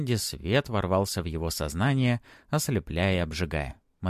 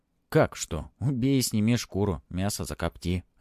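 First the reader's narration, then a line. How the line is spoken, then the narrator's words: Plain. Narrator (Russian): ответил Сева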